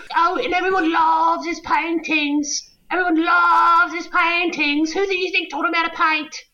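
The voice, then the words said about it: Monty Python-style comic woman voice. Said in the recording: “You sound like Monty Python doing a woman. ... doing the Monty Python voice.”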